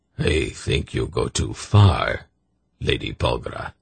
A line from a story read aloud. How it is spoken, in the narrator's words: Zakath told her in a frigid tone